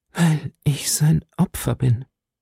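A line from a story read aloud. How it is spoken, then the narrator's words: Sighing reply. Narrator (German): versetzte Milady mit Seufzen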